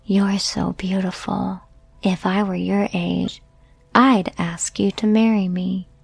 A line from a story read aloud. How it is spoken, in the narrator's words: He leaned over and whispered to me